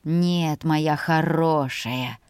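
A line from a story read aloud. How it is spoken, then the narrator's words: Growling undertone. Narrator (Russian): произнес он с рычащими нотками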